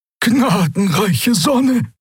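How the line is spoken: Gasping. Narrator (German): keuchte jemand

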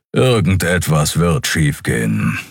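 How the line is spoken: Growled. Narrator (German): knurrte Keru

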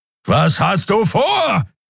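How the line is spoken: Roared again. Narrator (German): brüllte Kero wieder

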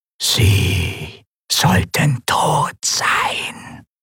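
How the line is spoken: Disembodied whisper. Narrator (German): flüsterte die körperlose Stimme

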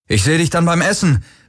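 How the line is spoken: Calling out. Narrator (German): rief er Kirai zu

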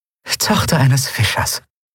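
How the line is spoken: Dry, grinning. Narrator (German): Andriel grinste trocken

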